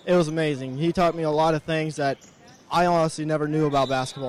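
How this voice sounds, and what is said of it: Slightly emotional, choked-up voice. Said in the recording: “little emotional”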